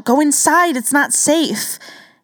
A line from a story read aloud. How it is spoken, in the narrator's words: Ryan slid the window open just enough to shout